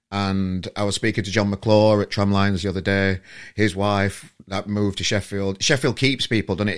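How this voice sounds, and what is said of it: Sheffield English accent. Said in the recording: “I'm from Sheffield originally, if anybody didn't know, with this accent”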